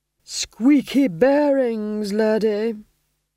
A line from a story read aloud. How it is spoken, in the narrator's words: groaned Vitola